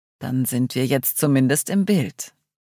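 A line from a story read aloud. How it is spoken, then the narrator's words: Very calm. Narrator (German): sagte Paul ganz ruhig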